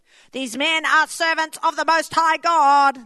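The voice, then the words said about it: Demon character voice. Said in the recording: “That's my demon voice.”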